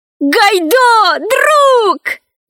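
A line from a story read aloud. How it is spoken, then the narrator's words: Shout. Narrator (Russian): закричал Пашка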